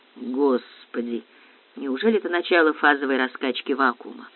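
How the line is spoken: Low voice. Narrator (Russian): вполголоса проговорила Баянова

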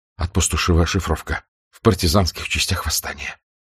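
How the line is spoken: Breathless, quiet. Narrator (Russian): Запыхавшись, он … тихо сказал

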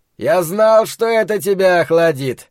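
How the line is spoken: Cheerful shout. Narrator (Russian): весело закричал человек, известный ему под именем Ричарда Фрая

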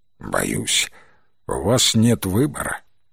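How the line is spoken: Sad voice. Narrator (Russian): печальным голосом произнес Уоллес

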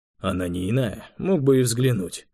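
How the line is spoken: Condescending grumble. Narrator (Russian): снисходительно проворчал Завулон

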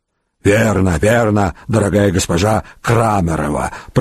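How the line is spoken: Hoarse wheeze, hunched over. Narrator (Russian): прохрипела третья, согнувшись дугой

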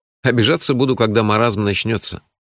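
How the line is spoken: Calm. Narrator (Russian): спокойно сказал я

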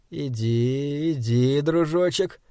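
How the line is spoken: Muttered. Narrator (Russian): пробормотал он

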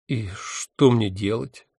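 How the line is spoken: Unhappy question. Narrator (Russian): несчастным голосом спросил я

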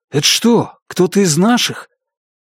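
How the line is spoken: Frightened question from behind. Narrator (Russian): Позади один из охотников испуганно спросил

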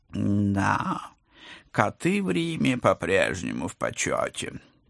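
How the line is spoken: Purring, professor. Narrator (Russian): промурлыкал профессор

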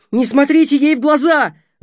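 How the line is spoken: Shouting. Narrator (Russian): закричал Будимир

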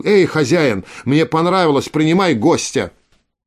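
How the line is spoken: Shouted. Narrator (Russian): Крикнул

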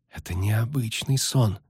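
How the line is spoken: Whisper. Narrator (Russian): шепнул Лютик

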